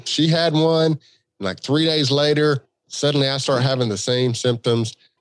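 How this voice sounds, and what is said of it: Stuffed-up, congested voice. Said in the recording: “I don't know if you can tell by my voice, but my head is stopped up ... head cold ... trying to have a normal voice”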